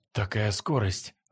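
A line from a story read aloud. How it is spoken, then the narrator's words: Exclaimed. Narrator (Russian): воскликнул Баянь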